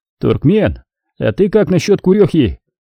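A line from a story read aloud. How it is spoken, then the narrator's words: Shout into hatch. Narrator (Russian): крикнул в люк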